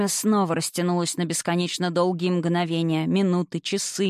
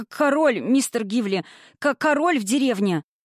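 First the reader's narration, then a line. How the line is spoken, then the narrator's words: Frightened stammer. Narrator (Russian): Он выглядел напуганным, заикаясь, произнес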